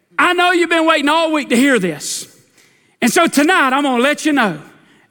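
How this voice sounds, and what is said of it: Impression of preacher Mays Jackson. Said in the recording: “I'm trying to do a Mays Jackson impression, but I don't think anybody can do a good one.”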